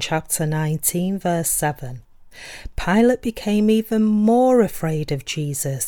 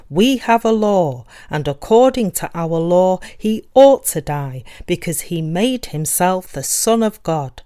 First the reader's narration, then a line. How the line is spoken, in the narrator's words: objected even more fiercely and justified themselves by saying